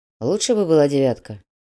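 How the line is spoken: Grumbling. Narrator (Russian): буркнул Грязнов

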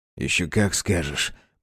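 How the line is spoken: Ghostly hiss. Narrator (Russian): прошипел призрак

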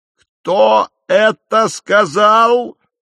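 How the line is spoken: Startling roar. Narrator (Russian): проревел он, да так, что даже сидевший рядом со мной Ярышка вздрогнул

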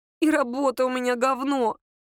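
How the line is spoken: Moaning. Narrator (Russian): простонала Лера

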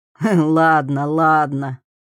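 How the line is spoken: Chuckling. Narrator (Russian): хохотнул он

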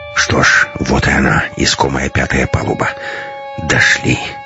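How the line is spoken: Heavy exhale. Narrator (Russian): тяжело выдохнул Матвей

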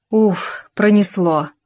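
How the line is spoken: Relieved sigh. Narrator (Russian): облегченно вздохнул Татарчук

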